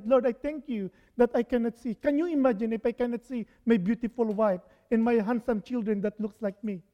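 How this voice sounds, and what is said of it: Non-native English accent. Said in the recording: “my accent is bad ... my English is not very, if not that good”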